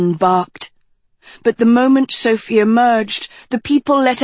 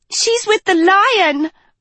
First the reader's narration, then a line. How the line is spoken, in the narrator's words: a girl cried